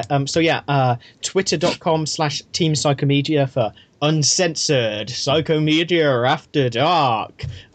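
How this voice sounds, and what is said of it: Spooky voice. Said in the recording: “I don't know why I went for a spooky voice rather than a salacious one.”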